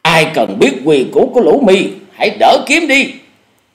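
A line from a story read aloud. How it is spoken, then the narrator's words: Shouting. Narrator (Vietnamese): Cùng với tiếng quát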